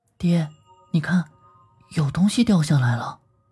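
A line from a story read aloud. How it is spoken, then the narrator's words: Whispering. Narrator (Chinese): 我悄声说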